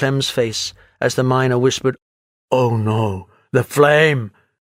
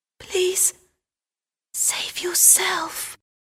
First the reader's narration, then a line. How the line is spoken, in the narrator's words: she whispered